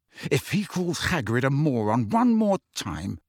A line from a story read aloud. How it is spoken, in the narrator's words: said Harry through gritted teeth